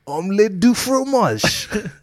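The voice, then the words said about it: Put-on French accent. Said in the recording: “What's your best French accent? ... Best French accent?”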